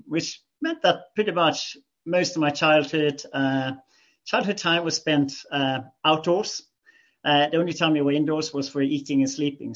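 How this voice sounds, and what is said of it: Scandinavian accent. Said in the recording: “You can probably pick up on my accent that I am from Scandinavia.”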